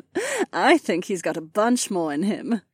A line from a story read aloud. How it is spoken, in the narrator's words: Cat chuckled